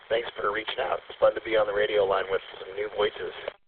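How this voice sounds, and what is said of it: Weak, strained voice. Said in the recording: “losing my voice”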